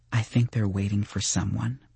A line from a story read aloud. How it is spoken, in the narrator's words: she said quietly